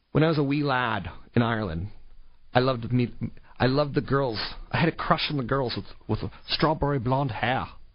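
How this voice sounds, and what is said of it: Bad put-on Irish accent. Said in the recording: “that's the worst accent I've ever heard... It's my Irish accent”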